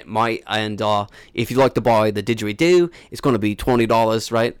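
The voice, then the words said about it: Put-on Australian accent. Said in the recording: “You're using Australian. ... My best Australian accent”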